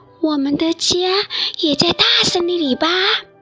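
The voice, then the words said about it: Quiet, soft voice. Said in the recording (Chinese): “小声说道”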